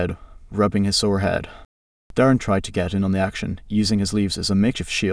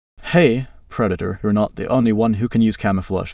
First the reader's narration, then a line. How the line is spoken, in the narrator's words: the predator chuckled again